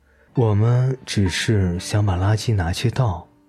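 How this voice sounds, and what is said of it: Spoken in a very small voice. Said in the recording (Chinese): “我用很小的声音说道”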